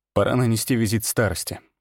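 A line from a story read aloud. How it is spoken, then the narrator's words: Calm. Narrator (Russian): спокойно произнес я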